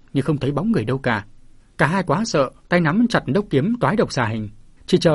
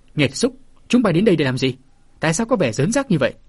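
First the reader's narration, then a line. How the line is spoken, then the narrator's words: Old man's loud bark. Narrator (Vietnamese): Lão già quát lớn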